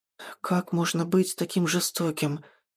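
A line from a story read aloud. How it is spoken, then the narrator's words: Quiet whisper. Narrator (Russian): тихо шепчет Феодора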